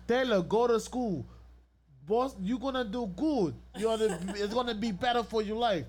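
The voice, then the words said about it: Imitates a non-native English accent. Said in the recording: “I'm just imitating her English accent because she don't speak English.”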